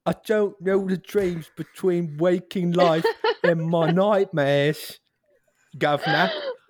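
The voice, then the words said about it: Cockney British accent. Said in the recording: “He's like Cockney... Tell me if this is British accent”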